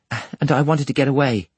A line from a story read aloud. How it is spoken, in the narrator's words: the girl panted